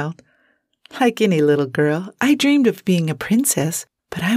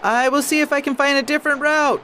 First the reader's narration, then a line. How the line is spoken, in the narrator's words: the coachman shouted as the noise grew